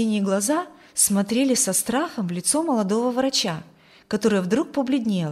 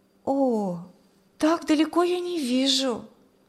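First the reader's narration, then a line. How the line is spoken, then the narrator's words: Sighed. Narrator (Russian): вздохнула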